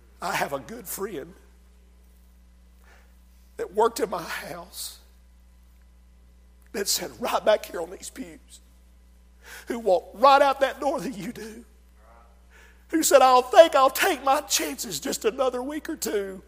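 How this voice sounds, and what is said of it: Shouting preacher. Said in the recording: “I'm shouting”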